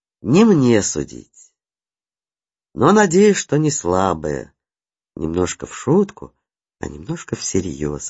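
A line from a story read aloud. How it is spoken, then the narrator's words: Plain. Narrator (Russian): ответил незнакомец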